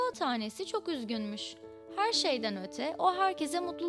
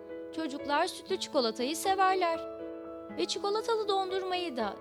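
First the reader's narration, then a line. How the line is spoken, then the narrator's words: Cocoa beans shouting in unison. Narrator (Turkish): diye hep bir ağızdan bağırmış kakao taneleri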